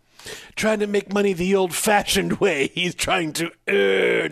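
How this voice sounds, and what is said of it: John Houseman impression. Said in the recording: “my John Houseman impression”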